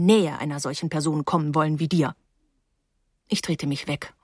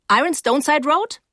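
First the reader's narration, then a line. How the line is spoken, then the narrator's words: Conductress calling out. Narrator (German): rief die Schaffnerin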